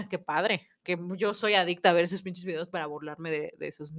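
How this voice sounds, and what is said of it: Usual voice. Nothing is said of it.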